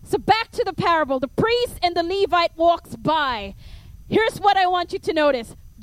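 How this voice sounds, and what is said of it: Filipino accent. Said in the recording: “my Filipino accent comes out”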